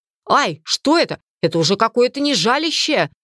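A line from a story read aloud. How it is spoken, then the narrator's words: Screaming in burning pain. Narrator (Russian): закричал маг, ощущая, как все его тело горит, словно превратившись в один сплошной свежий ожог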